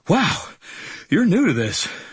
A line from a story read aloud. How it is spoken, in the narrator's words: said, panting